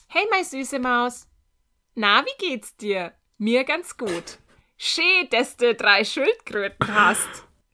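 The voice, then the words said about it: Put-on Franconian German accent. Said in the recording (German): “Ich versuche ihn wieder in, in, im fränkischen Akzent so ein bisschen vorzulesen”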